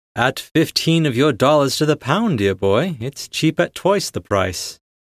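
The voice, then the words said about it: Hugh Grant-style posh English accent. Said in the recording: “said in a Hugh Grant accent”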